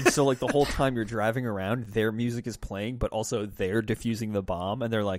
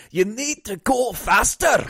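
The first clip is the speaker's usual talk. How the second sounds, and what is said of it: Fantasy dwarf character accent. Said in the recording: “you sound exactly like Magni Bronzebeard, who's okay. a character from WoW. When you do that accent, it sounds exactly like”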